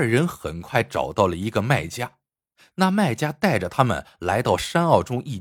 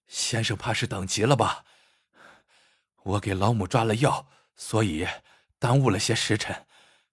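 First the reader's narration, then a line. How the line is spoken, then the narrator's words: Panting loud call. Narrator (Chinese): 汉子气喘如牛的叫道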